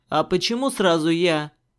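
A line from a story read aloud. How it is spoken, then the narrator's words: Displeased snort. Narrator (Russian): недовольно фыркнул Черный в ответ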